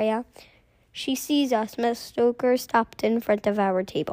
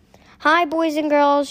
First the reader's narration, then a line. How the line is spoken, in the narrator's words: she said cheerfully